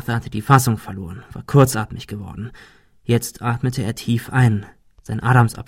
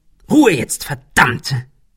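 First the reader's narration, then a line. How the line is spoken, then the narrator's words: Hissed. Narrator (German): fauchte Ben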